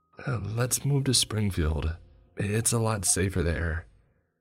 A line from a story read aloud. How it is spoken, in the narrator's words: My wife started in a desperate tone